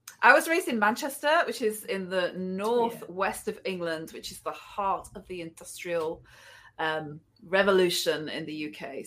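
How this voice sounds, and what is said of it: English accent. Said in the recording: “I love your accent.”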